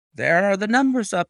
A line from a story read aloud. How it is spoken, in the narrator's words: I cried